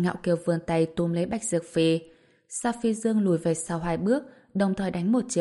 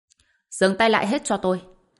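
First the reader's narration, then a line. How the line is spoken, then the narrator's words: Shouting. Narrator (Vietnamese): Bạch Vân Bằng lập tức hét lên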